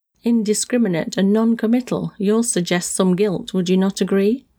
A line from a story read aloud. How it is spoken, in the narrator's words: the man laughed once more